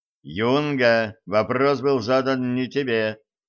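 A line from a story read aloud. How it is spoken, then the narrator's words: Stern. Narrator (Russian): строго сказал черныш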